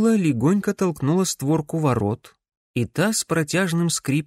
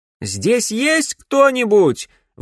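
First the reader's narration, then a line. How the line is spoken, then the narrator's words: Repeated shout. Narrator (Russian): вновь крикнула Камилла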